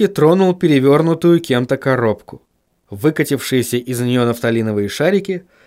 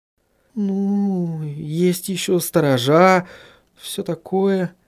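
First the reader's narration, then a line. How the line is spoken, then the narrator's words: Uncertain speech. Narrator (Russian): неуверенно произнесла Сахариса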